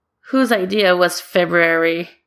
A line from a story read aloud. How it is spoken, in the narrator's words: Sarah grumbles